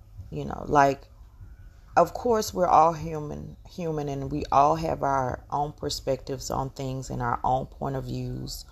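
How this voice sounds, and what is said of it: Heavy Southern Georgia accent. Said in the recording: “I'm from the South. I'm from Georgia, and I speak with a very heavy accent.”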